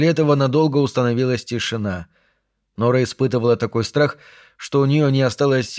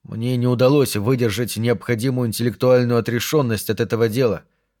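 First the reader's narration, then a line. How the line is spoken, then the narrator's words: Plain. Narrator (Russian): сказал он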